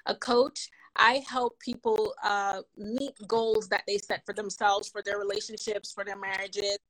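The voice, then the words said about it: Jamaican accent. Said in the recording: “a different accent, it's because I'm Jamaican and I don't know how to shut it off”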